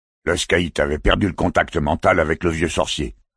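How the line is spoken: Annoyed tone. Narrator (French): répondit l'homme en noir, Lovat, d'un ton agacé

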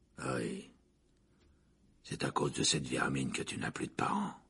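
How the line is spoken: Growling. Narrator (French): gronda Black

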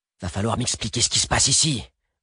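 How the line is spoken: Blackbird grumbling. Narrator (French): grommela le merle

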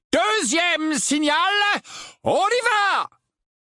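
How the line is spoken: Loud voice. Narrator (French): dit Lupin d'une voix forte

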